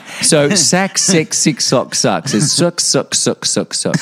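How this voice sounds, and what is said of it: Mock New Zealand vowels. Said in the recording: “If you try to do a New Zealand accent ... vowels”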